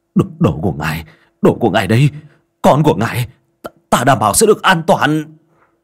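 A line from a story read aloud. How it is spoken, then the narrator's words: Panicked trembling plea. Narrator (Vietnamese): Hắn hoảng hốt quỳ xuống cầu xin, miệng run rẩy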